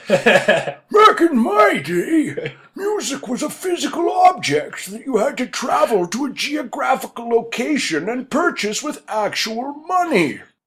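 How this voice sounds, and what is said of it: Comedic old man voice. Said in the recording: “my comedy old man voice”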